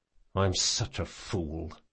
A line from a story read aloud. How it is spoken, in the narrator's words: he muttered